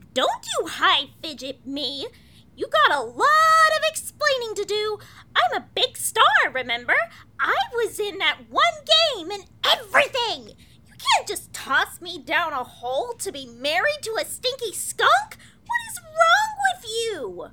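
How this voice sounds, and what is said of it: Angry yelling. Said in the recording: “You sound like you're mad ... you're yelling a lot”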